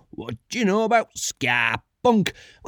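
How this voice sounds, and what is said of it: Put-on northern English accent. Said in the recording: “it's in a northern accent.”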